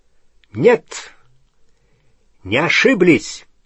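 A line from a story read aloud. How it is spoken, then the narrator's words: Loud, straining, exhausted. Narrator (Russian): Гарри произнес это громко, как только мог, собрав все оставшиеся силы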